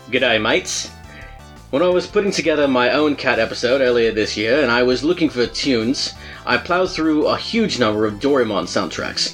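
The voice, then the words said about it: Put-on Australian accent. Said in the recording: “My Australian accent was a pretty big hit... Volts said I sounded a little bit English, so we'll see”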